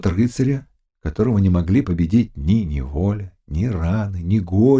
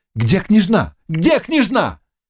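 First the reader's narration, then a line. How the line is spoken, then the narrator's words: Shout. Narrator (Russian): крикнул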